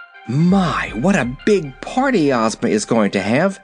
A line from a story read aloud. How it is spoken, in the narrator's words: exclaimed Dorothy